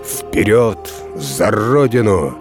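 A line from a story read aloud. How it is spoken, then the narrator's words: Menacing shout. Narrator (Russian): грозно крикнул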